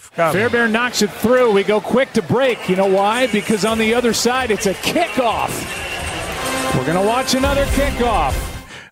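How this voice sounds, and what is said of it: Ironic fake enthusiasm. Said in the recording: “six levels of ironic fake enthusiasm”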